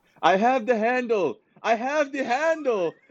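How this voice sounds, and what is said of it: Imitated Cuban accent, shouting. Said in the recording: “in his, like, Cuban accent”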